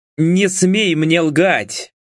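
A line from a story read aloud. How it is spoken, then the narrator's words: Roar. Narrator (Russian): проревел Владислав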